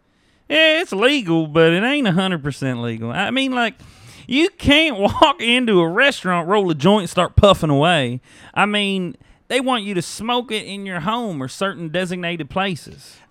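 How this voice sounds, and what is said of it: Put-on Southern country accent. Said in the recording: “if this was a Western that Tarantino made ... that's your favorite accent. Voice to do ... you got your Garth Brooks thing going ... when you have to be told to do an accent”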